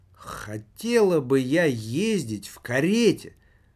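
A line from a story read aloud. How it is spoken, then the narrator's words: Plain. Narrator (Russian): сказала она тогда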